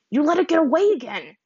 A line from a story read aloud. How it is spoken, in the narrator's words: yelled in frustration